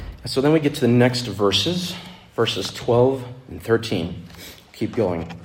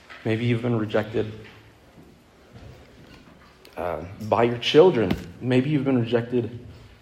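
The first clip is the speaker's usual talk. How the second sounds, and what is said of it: Emotional, nervous voice. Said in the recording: “I get a little emotional too when I'm nervous”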